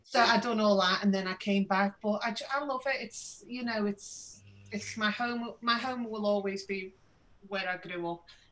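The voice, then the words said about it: Posh-sounding accent. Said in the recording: “You do sound posh”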